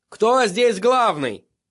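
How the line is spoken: Shouted. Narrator (Russian): крикнул он

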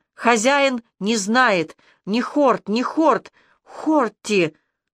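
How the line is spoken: Moaning. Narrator (Russian): еще раз простонав

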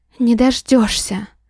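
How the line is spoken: Breathed out. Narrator (Russian): Выдохнула

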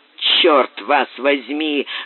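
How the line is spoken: Grumbling. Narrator (Russian): заворчал Боб

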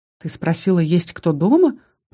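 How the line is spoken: Young man, slightly confused. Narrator (Russian): произнес вслух чуть растерянно парень

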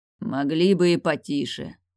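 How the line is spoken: Beast's grumble. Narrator (Russian): проворчал зверь

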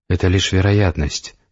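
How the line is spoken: Whisper. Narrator (Russian): прошептала Светлана

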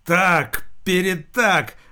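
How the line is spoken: Roared. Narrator (Russian): взревел

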